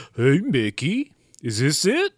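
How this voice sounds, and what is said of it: Imitates Goofy cartoon dog voice. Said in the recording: “do a Goofy impersonation”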